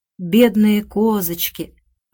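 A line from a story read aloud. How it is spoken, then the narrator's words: Sighing. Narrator (Russian): вздохнула Рэйчел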